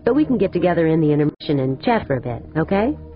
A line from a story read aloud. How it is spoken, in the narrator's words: Cardenas had quickly agreed